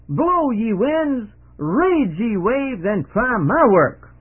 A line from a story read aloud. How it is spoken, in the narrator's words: he shouted